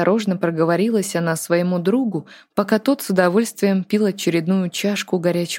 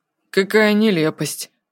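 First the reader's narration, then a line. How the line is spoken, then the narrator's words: Dry, jealous tone. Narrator (Russian): сухо ответил Артур с недаемой муками жуткой ревности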